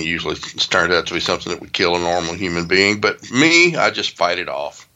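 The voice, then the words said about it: Sounds a little sick, congested. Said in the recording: “I got a bit of a cold this morning ... you sound a little sick”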